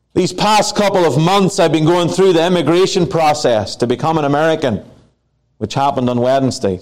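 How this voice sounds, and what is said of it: Non-American foreign accent. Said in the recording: “I'm just like one of you with a funny accent now.”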